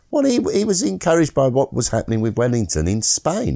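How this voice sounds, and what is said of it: Usual voice. Nothing is said of it.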